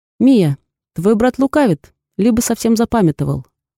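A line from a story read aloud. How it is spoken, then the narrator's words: Loud and confident. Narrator (Russian): отвечаю я громко и уверенно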